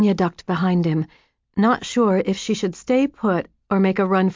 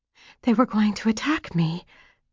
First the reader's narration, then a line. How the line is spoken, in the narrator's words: whispered Virginia